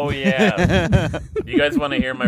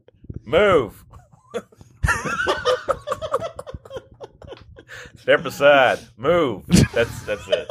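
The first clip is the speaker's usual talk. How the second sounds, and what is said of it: Imitates another person's voice. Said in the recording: “my Richard Jewell impression”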